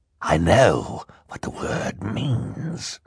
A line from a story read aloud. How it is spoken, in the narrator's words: Count Olaf growled